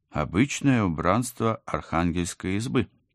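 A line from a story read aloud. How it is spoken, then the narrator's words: Uncertain. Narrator (Russian): неуверенно пожала плечами я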